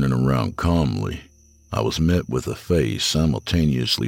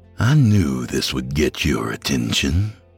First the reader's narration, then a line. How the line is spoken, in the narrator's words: he said in a smooth, serpentine voice